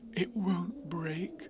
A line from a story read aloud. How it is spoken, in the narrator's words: whispered Pooh comfortingly